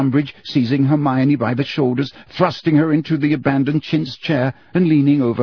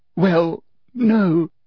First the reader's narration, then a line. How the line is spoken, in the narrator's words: sobbed Hermione